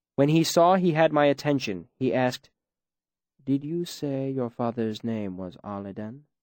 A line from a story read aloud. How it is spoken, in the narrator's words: He asked it very calmly, with no hint of regret or apology in his voice